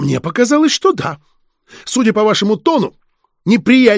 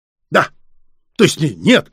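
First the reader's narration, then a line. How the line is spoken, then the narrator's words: Abruptly breaking off. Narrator (Russian): Губернатор резко замолчал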